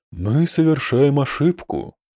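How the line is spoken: Sighing. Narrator (Russian): вздохнул Оксати

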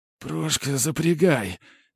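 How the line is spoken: Quiet hoarse wheeze. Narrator (Russian): тихонько просипел масон

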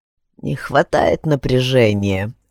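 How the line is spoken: Old man snorting. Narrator (Russian): хмыкнул дед

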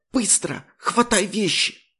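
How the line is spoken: Urgent whisper. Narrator (Russian): Она перешла на шепот

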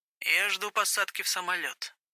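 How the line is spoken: Quiet confession. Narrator (Russian): признался он тихо

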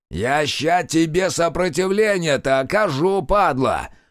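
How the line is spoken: Roared. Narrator (Russian): взревел Сухощавый

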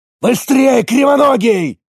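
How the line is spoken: Barked order. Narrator (Russian): рявкнул старший из тройки

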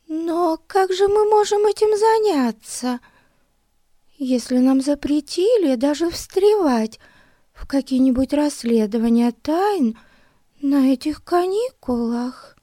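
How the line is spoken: Thin high voice. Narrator (Russian): Тоненьким голосом сказала Бетси

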